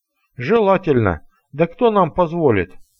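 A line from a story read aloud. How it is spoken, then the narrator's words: Steward sighing. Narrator (Russian): вздохнул управляющий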